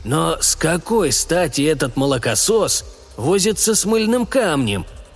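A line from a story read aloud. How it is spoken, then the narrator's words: Grumbling parent. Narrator (Russian): проворчал родитель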